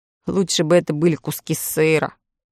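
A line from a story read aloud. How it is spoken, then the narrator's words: Gloomy boy's reply. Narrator (Russian): мрачно отозвался мальчик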